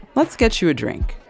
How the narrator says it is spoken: I announce brightly

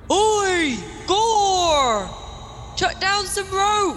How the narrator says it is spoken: Grenick shouts up

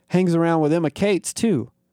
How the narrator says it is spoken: the first redneck chuckled

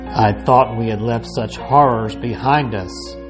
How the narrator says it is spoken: said grimly

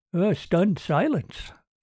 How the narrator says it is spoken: Andy said gravely

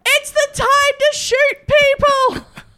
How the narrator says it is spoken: Another yells

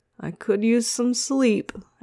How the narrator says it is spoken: Aster yawned again

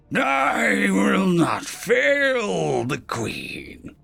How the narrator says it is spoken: he snarled

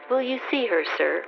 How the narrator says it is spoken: she ended more kindly

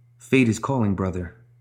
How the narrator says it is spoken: whispered Jeanne suddenly

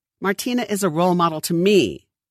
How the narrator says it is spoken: Everett snapped back publicly

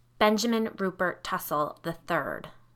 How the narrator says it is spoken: Allison said

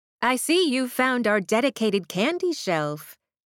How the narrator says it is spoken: Mayor Clifton said cheerfully, smiling

